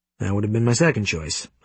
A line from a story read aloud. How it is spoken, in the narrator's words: I murmur